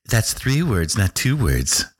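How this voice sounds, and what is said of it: Imitates a skeptical critic's voice. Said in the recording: “imitating an average skeptical utopian”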